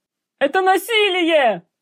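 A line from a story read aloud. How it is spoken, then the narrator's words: Yelling. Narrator (Russian): орал Ангиан Муско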